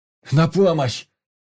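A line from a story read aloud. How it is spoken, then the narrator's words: Yelling for help. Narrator (Russian): орал Ваня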